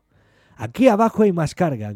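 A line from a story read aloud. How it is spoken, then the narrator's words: Captain's distant shout. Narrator (Spanish): gritó el capitán desde el fondo de la nave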